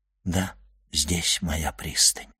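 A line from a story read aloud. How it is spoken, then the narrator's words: Quiet addition. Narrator (Russian): он тихо прибавил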